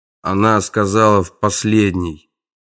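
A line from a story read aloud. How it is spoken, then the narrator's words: Gloomy. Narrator (Russian): мрачно сообщил маньяк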